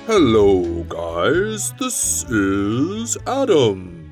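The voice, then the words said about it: Speaking very slowly. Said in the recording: “你为什么说话那么慢？Why are you talking so slow？”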